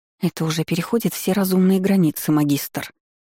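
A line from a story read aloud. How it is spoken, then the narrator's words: Hissed, frowning female assistant. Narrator (Russian): прошипела ассистентка нахмурившись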